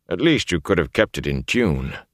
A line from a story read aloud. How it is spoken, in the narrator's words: he muttered